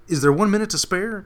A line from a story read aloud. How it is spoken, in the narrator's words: asked eagerly